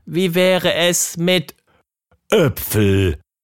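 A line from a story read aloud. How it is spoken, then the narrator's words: Thundering excitedly. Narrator (German): donnerte Bumm aufgeregt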